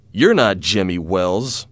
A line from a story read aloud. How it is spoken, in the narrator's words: said angrily